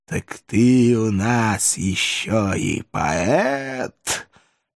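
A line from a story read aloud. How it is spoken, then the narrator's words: Sarcastic hiss. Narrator (Russian): Язвительно морща губы прошипел император Франции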